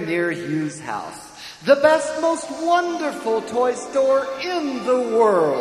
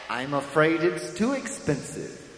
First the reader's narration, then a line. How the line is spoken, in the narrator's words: said his mother